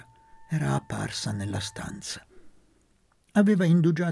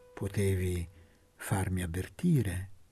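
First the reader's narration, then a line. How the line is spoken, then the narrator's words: Slow speech. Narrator (Italian): disse lentamente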